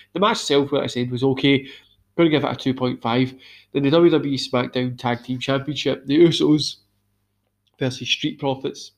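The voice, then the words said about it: Hoarse, strained, tired voice. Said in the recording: “I'm losing my voice just by how drained I am ... this terrible this that's just in my throat”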